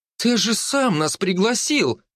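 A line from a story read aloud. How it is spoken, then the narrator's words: Exclaimed. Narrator (Russian): воскликнула она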